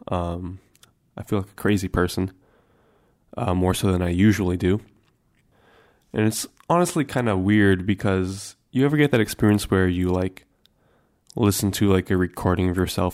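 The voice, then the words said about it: Deep, congested voice. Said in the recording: “It's got that nice bass to it, even more so now that I have this cold. The sinus is all congested, give me that super bass.”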